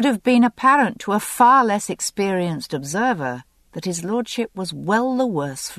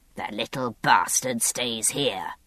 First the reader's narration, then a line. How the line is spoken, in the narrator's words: Ellesmere's voice rasped hoarsely